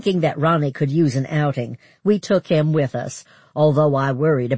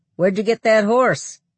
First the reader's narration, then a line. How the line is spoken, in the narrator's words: Lloyd laughed